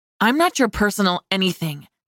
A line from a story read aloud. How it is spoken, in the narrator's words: I snapped